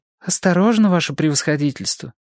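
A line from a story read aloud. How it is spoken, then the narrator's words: Frightened mumble. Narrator (Russian): испуганный и бормотал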